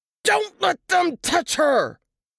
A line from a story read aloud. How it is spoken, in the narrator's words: Teeth clenched, Mark yelled